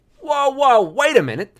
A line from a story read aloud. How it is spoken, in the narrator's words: I shouted